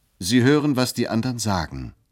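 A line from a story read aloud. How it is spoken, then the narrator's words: Calling out. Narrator (German): rief ich zum Wandschirm gewandt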